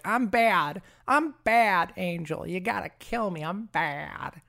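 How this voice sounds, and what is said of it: Poor imitation of a TV character. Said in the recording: “That's such a terrible impression of Faith.”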